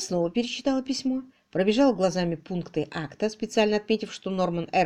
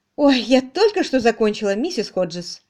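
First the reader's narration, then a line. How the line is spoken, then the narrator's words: Joyful announcement. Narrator (Russian): радостно сообщила мисс Мерчисон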